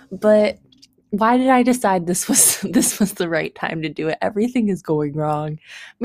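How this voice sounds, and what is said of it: Unusually deep, strained voice. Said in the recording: “My tongue is burnt ... it kind of hurts to talk ... my voice sounds really weird on this ... my voice sounds so deep”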